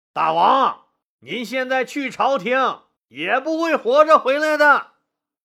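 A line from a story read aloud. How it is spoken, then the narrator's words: Shouting. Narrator (Chinese): 护泽喊道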